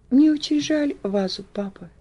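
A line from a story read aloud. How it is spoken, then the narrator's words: Barely audible. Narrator (Russian): еле слышно сказала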